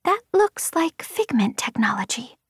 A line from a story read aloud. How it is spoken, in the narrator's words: Vapor said softly